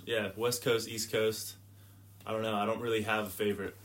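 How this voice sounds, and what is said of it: American accent. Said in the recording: “clearly you talk funny ... You're not from around here ... my accent would be from the United States ... I'm American. Virginia.”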